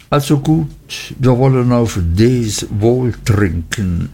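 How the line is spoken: Embarrassed, after stammering. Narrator (German): Nach langem verlegenen Erröten, Stottern und Leugnen sagte ich endlich

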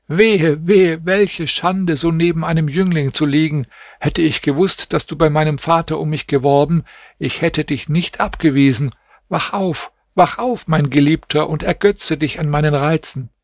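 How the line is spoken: Screamed. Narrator (German): schrie sie

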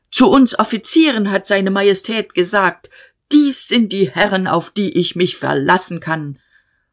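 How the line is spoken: Shout. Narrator (German): Der Major schrie

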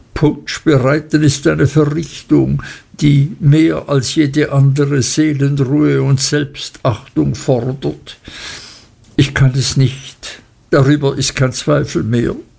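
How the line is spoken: Muffled sobbing. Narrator (German): schluchzte er hinter dem Tuch hervor

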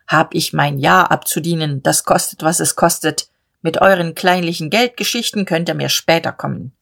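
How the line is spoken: Rough voice. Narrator (German): sagte rau

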